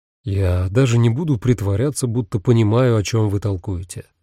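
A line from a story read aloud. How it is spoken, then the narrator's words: Plain. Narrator (Russian): сказал он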